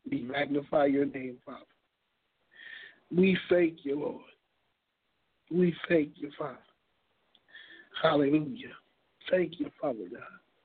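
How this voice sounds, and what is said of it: Strained, failing voice. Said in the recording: “my voice is going out”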